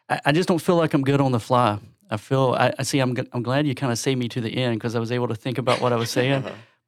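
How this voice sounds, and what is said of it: Strong Southern US accent. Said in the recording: “being from Georgia, speaking with a strong Southern accent”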